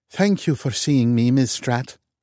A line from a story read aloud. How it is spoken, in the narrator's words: she said with a Norwegian accent